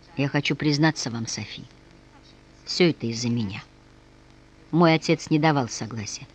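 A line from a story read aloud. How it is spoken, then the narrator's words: Quiet, desperate resolve. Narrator (Russian): словно бросаясь в бездну, тихо сказал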